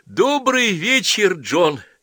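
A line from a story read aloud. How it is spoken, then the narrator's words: Joyful greeting. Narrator (Russian): радостно приветствовал он Половинкина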